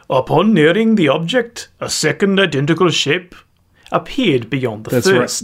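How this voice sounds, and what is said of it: Exaggerated put-on foreign accent. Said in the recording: “So accent it. ... That's racist. ... Choose a different accent. ... It's the same accent.”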